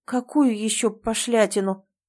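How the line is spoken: Embarrassed mumble. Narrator (Russian): бормочу, заранее краснея до корней волос

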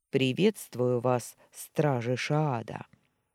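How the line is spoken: Throat-clearing, trained voice. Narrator (Russian): прокашлялся и хорошо поставленным голосом произнес

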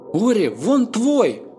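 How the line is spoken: Joyful exclamation. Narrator (Russian): радостно воскликнула Финелла

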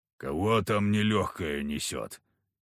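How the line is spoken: Grumbled. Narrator (Russian): буркнул Харисим

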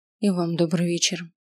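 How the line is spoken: Quiet reply. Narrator (Russian): ответила я тихо

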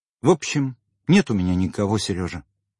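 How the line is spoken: Quiet. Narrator (Russian): сказала она тихо

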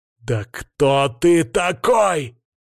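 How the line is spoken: Explosive angry shout. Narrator (Russian): прокричал я, взорвавшись встречной атакой

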